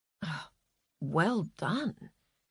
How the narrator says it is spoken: whispered Frances

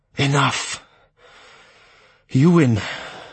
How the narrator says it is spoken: he rasped in a sullen voice

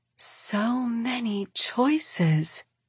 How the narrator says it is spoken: Katarine whispers

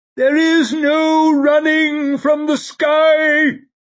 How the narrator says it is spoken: he was shrieking

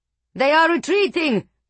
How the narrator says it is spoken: Giestinjani roared

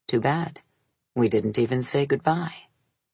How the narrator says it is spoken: Bruno confined himself to saying, gravely

